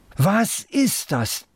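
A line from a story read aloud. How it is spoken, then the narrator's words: Loud. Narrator (German): laut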